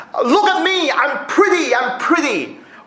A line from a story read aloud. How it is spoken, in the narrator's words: he has been often heard shouting in the ring